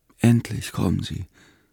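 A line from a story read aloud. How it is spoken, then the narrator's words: Weak landlady. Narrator (German): sagte die Wirtin schwach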